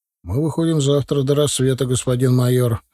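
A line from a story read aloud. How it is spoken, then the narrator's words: Plain. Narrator (Russian): ответил Егоров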